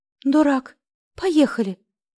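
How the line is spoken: Frightened command. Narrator (Russian): испуганно приказала

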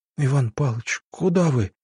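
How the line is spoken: Frightened whisper. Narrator (Russian): испуганно прошептала

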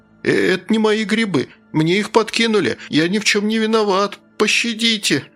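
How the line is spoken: Whimpering. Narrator (Russian): захныкал

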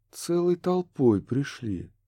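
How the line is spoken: Soft. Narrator (Russian): мягко продолжила Несса

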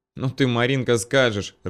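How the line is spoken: Laughing. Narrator (Russian): рассмеялась Аня

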